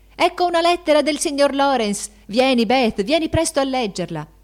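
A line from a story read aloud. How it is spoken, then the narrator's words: Four voices shouting joyfully. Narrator (Italian): quattro voci gridarono con accento di gioia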